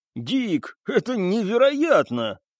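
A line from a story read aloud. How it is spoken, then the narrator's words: Forced burst of laughter. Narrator (Russian): Стас даже расхохотался, хотя ему сейчас было совсем не до смеха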